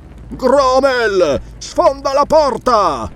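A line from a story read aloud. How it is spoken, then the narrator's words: Shouting. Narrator (Italian): gridò Ascalante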